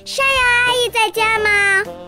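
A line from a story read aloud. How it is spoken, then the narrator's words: Loud shout. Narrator (Chinese): 冲着屋子大喊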